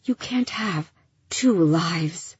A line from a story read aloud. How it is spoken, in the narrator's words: Her mind hissed